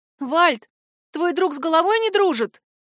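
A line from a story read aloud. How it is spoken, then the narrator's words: Trembling, fearful voice. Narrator (Russian): дрожащим голосом спросила ведьмочка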